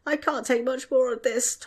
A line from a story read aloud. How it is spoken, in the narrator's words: Tom whined